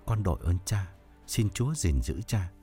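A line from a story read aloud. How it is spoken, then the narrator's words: Trembling voice. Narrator (Vietnamese): Thông run run nói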